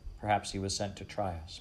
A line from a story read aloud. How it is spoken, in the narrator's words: Mother said